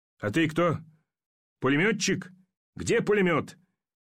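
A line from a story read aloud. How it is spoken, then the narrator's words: Shouting. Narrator (Russian): закричал Ермаков на солдата с птичьим личиком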